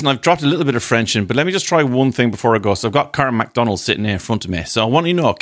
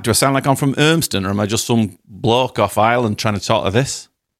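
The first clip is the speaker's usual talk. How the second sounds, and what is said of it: Attempted Manchester accent, veering Yorkshire. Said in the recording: “gauge my Manchester accent and tell me, is it all right? ... I think you're veering into Yorkshire.”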